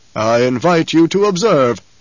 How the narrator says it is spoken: the basso voice rumbled

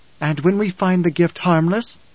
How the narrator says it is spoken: Alia had cried

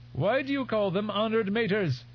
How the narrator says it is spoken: His voice lapsed almost into a screech

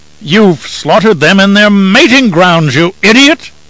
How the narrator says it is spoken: Abelard cried

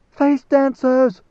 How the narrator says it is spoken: the scream

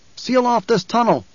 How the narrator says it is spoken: Paul shouted

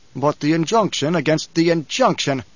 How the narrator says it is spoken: Paul barked

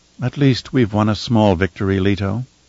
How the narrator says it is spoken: Kylea said in her soft voice

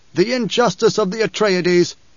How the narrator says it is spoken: he'd protested loudly

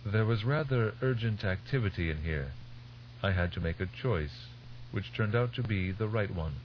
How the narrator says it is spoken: His voice mild, Tegg said

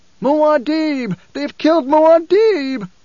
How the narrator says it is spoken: a voice screeched from the mob

